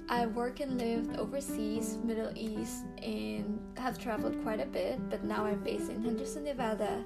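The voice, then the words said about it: Filipino-accented English. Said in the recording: “I'm from the Philippines, so yes, if you hear my accent, I'm your Kabayan”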